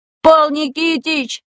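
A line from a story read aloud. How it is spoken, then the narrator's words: Pleading. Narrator (Russian): взмолился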